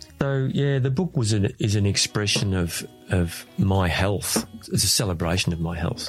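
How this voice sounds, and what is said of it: Emotional, wavering voice. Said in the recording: “There's still a lot of emotion around the whole thing, as you can hear in my voice.”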